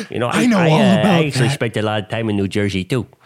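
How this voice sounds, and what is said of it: Imitates another person's voice. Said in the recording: “that was just me, doing my impression. This is the actual Jack Nicholson.”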